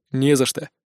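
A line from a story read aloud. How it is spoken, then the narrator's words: Dry reply. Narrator (Russian): сухо отозвался глава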